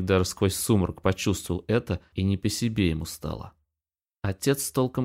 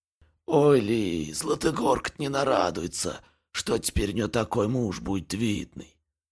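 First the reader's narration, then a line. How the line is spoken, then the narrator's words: Hoarse wheeze. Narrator (Russian): прохрипел Кузьма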